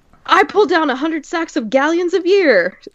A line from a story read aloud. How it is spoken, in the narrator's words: one of them shouted